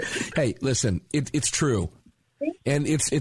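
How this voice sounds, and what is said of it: Usual voice. Nothing is said of it.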